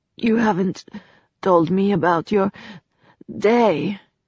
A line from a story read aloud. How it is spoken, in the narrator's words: said breathlessly